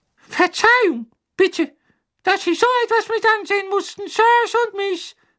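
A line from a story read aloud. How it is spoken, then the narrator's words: Ashamed elf squeaking. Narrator (German): quiekte einer der Elfen mit tief beschämter Miene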